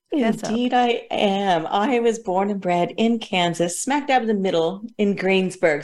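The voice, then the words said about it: Softened American accent. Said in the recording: “I still sound like an out-and-out Yank, even though I have softened my accent so much over the last 30 years ... a mix of everything”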